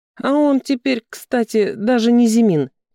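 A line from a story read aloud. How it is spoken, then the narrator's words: Giggling over the phone. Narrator (Russian): хихикала подруга в трубку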